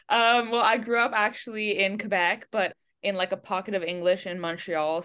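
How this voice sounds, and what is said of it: English-sounding accent. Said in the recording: “you're Canadian or from Canada with an English accent. So that threw me off a little bit.”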